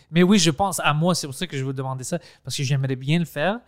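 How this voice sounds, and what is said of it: French spoken with Greek accent. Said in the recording (French): “c'est bizarre mon accent en français ... Je parle français comme un grec ... c'est pas un accent anglais, c'est un accent grec. C'est un grec qui parle.”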